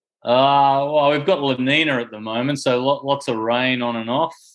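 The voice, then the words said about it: Australian accent. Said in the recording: “Nice to hear an Antipodean accent”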